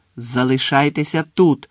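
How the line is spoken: Angry repeat. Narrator (Ukrainian): сердито повторив Гаррі

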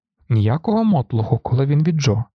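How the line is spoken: Stern declaration. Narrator (Ukrainian): суворо заявив Грегор

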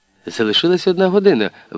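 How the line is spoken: Exclamation. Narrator (Ukrainian): вигукнула Аліса

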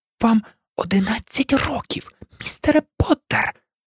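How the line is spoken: Sharp whisper. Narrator (Ukrainian): різко прошепотіла

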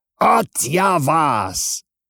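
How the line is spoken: Fat colonel shouting from above. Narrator (Russian): кричал все так же сверху толстый полковник

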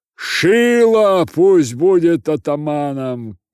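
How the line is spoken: Shouting crowd. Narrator (Russian): кричали одни

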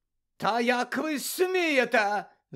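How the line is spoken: Indignant shout. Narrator (Ukrainian): закричала мадам Максим

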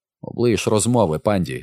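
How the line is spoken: Angry. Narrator (Ukrainian): сердито сказав Гай

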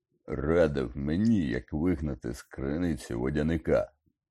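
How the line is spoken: Grumble. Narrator (Ukrainian): буркнув Гегрід

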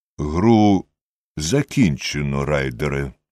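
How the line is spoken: Calm. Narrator (Ukrainian): спокійно мовив Холмс

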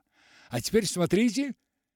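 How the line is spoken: Exclamation. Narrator (Russian): воскликнул Мартин

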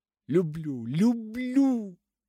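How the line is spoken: Exclaimed. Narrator (Russian): воскликнула она

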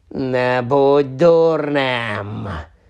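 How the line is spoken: Snarled. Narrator (Ukrainian): загарчало обличчя

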